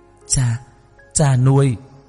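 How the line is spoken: Choked, sobbing cry. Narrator (Vietnamese): nghẹn ngào cùng tiếng khóc nức nở kêu lên

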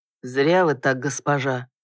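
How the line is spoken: Barely audible. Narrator (Russian): едва слышно проговорил Лерсон спустя минут 30 гнетущей тишины

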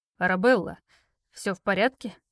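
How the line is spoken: Hoarse question. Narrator (Russian): спросил с хрипотцой

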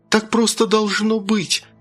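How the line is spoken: Exclamation. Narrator (Russian): воскликнула Бритни

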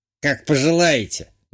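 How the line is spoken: Displeased middle-aged woman grumbling. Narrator (Russian): недовольно буркнула средних лет работница супермаркета

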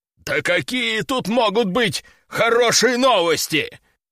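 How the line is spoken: Angry growl. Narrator (Russian): Рыкнул Лежаков

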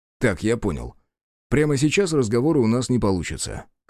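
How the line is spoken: Snorting remark. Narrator (Russian): хмыкнул попаданец

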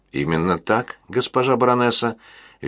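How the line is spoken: Cheerful reply, flawless Russian. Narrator (Russian): весело ответил граф на чистейшем русском языке

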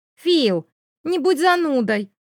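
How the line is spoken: Exclaimed. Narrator (Russian): воскликнула девушка

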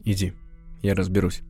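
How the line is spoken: Calm reply. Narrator (Russian): спокойно ответил Бек

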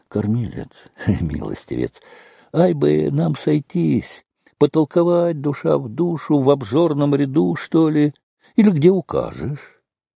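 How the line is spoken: Affectionate, coaxing. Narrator (Russian): Бывалый человек, прищуривался ласково, говорил подьячему

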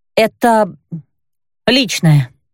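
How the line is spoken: Husky hurried mutter. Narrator (Russian): хрипловато пробормотала я

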